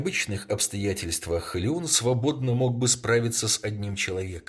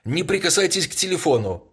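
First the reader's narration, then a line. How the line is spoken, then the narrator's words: Commanding shout. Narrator (Russian): крикнул он повелительно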